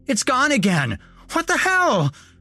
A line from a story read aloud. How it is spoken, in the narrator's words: Nick screamed